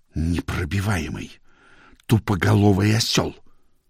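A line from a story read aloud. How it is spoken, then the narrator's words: Muttering. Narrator (Russian): Пирен пробормотал вслед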